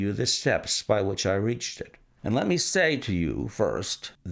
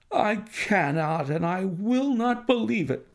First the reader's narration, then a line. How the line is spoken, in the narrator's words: cried the banker with an ashen face